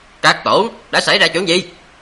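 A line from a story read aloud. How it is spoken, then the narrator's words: Furious shout. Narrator (Vietnamese): gã nổi giận đùng đùng, quát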